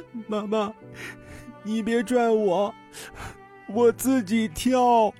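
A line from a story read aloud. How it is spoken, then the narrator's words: Child crying, comforting. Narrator (Chinese): 孩子…哭声安慰妈妈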